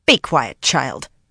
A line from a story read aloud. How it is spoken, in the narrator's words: she snapped at Garinia